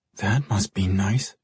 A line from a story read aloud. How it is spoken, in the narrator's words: she muttered under her breath